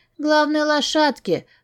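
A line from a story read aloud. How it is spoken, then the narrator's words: Sleepy child mumbling. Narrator (Russian): сонно пробормотала девочка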